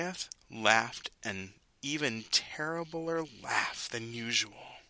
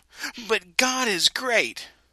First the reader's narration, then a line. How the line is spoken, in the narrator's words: David shouted up to him